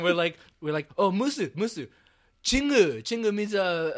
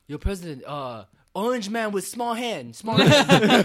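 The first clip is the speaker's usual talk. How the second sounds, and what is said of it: Put-on accent, done badly. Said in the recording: “my accent's really bad”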